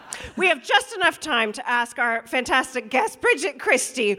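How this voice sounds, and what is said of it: Usual voice. Nothing is said of it.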